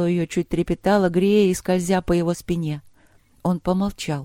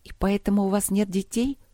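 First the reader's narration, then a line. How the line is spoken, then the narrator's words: Understanding whisper. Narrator (Russian): понимающе прошептала она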